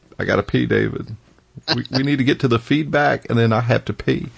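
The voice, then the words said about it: Bill Clinton impression, near tears. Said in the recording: “my Bill Clinton really bad impression ... the phrase that I could say in his voice ... when I do his voice ... He does kind of have that kind of "I'm just about to burst into tears."”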